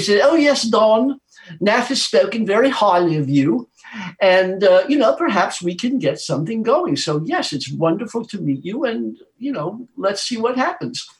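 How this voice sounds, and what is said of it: Poor imitation of English accent. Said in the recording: “I'm going to imitate Brian's. I'm going to do a poor imitation of an English accent,”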